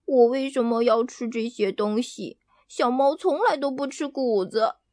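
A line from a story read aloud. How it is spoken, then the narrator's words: Quiet grumble. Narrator (Chinese): 赫娜小声地嘟囔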